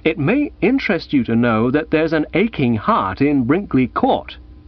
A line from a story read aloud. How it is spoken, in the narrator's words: I said firmly